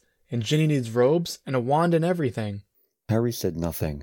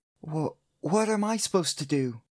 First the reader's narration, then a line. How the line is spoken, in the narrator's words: He stammered